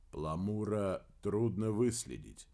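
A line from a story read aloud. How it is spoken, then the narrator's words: Quiet reply. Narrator (Russian): тихо ответил Дердагентур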